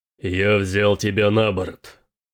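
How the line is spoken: Growling. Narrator (Russian): прорычал Тирак

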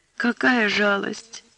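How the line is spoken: Sobbing speech. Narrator (Russian): всхлипывая, проговорила Аннушка

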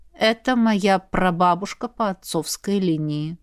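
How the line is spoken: Sighing grumble. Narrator (Russian): вздохнув, пробурчал командир

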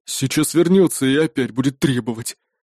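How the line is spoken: Grumbling. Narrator (Russian): проворчал Магнус

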